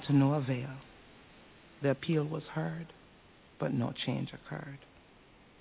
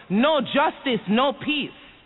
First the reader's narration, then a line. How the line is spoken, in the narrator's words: Jackson, Sharpton, and the mayor of Compton joined their voices and shouted